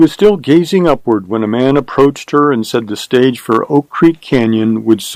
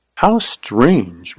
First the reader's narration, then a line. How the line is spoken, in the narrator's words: murmured Carly